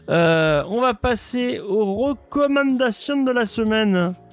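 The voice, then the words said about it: Put-on accent. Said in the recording (French): “je ne sais pas pourquoi je prends cet accent”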